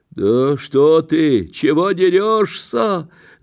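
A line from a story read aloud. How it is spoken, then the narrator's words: Peasant shouting. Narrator (Russian): закричал мужичонка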